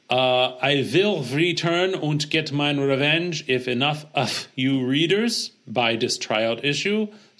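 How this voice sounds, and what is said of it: Poor put-on German accent. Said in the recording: “That wasn't a very good German accent.”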